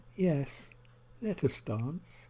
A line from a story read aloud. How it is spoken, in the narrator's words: in a tentative voice, her friend responded